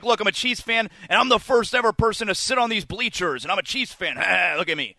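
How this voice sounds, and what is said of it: Imitates a macho construction worker. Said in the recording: “That was my impression of the Chiefs construction worker. ... Very very close to misogyny guy, and also also macho guy.”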